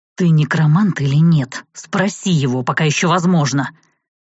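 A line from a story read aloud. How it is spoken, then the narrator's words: Angry growl. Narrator (Russian): Прорычал Арт с такой злостью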